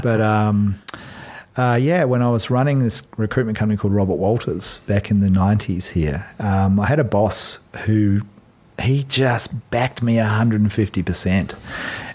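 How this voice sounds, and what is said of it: Australian accent. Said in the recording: “So I'm Aussie, obviously... This weird accent.”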